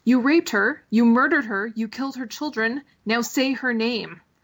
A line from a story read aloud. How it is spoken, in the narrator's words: the Viper shouts at the mountain